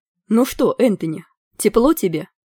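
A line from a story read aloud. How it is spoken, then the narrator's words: Mocking shout through cupped hands. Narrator (Russian): издевательски крикнул было Гвидион, сложив руки рупором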